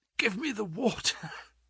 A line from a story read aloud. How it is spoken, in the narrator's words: gasped